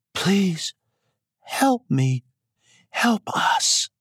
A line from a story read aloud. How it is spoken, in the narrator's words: In her soft voice, said again